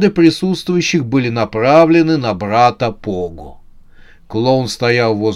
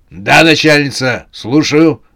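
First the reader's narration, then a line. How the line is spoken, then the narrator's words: Clown barking into phone. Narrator (Russian): гаркнул клоун в трубку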